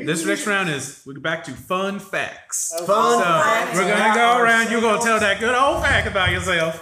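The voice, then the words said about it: Put-on hick Southern gentleman accent. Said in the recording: “what accent are you doing? ... I'm doing a little bit of a southern gentleman, but also real hickish”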